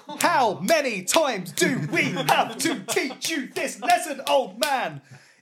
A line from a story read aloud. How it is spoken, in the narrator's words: screamed at you